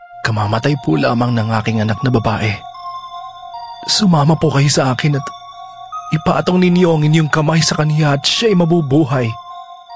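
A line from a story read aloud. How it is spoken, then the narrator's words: Pleading. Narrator (Tagalog): nakiusap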